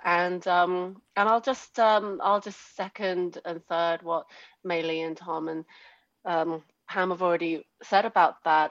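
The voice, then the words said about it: British accent. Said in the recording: “as you can probably tell from my accent, I didn't grow up in America. I grew up in the UK”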